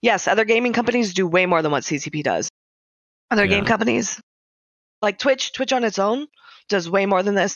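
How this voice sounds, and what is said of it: Raspy, hoarse voice. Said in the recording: “Sorry, I have a sum in my throat. I'm all raspy.”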